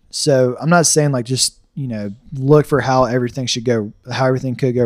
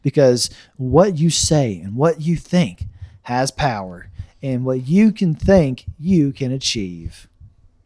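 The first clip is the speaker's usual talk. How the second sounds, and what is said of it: Joel Osteen impression. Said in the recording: “That's my Joel Osteen impression ... not bad”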